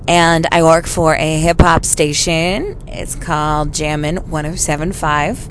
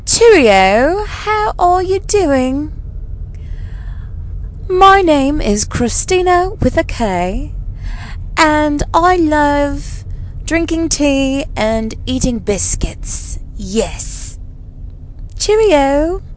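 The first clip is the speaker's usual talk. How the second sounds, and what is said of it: Imitated English accent. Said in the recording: “my English accent impersonation”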